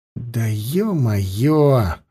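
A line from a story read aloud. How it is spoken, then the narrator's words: Exhaled. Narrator (Russian): выдохнул Лёшка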